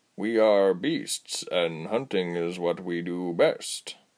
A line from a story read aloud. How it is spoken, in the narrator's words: he purred again